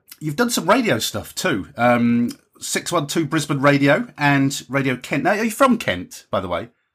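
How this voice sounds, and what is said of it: Southern English accent. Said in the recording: “my southern accent”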